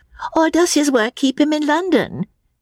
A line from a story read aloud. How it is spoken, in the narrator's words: said Miss Teresa, the more acute and less kindly of the two sisters